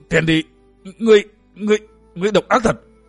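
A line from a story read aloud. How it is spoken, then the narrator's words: Breathless terrified stammer. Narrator (Vietnamese): diện mạo của Nhiếp Luân Tôn giả biến thành xanh lẻ như xác chết, lắp bắp chẳng ra hơi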